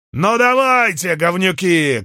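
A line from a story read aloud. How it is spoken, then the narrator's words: Shout. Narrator (Russian): крикнул Гальба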